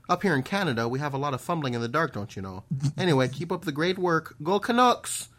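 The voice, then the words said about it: Put-on Canadian accent drifting Irish. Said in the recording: “That was very, like, Fargo meets Luck of the Irish. ... Whenever I do a Irish accent, it always inevitably, like, tumbles into a Canadian or like a Wisconsin accent.”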